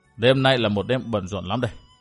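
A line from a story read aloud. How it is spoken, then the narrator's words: Muttered. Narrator (Vietnamese): Vân Thiên Nhạc lẩm bẩm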